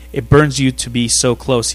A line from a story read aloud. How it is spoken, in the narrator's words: he says